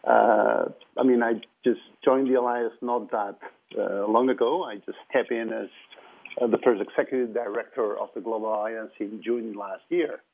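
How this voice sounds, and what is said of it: Catalan-accented English. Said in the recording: “your Spanish accent ... it's Spanish or Catalan ... Your Catalan accent.”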